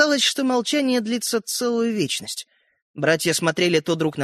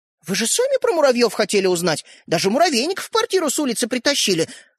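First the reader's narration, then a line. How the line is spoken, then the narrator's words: Offended. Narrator (Russian): обиженно проговорила Ариша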